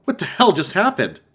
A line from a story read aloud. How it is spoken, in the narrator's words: Matt exclaimed